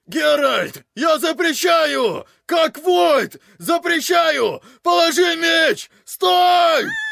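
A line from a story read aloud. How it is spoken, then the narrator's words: Child shouting, face covered. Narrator (Russian): Марилька кричала, прикрыв мордашку ручонками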